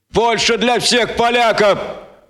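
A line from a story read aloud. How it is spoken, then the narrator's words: Roaring. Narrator (Russian): проревел великий Гонза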